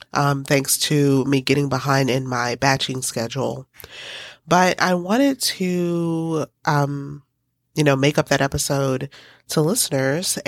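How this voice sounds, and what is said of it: Congested, strange-sounding sick voice. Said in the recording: “my voice sounds a little strange or congested”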